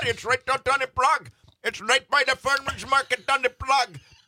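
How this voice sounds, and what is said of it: Put-on Czech accent. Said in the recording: “That was a good phenomenal Czech dialect.”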